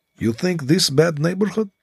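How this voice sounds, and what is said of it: Fake Russian accent. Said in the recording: “put on a Russian accent”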